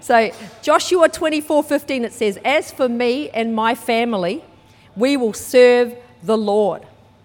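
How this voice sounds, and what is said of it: New Zealand accent. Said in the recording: “I was brought up in New Zealand. You might be able to tell by my accent, even though I haven't lived there for years.”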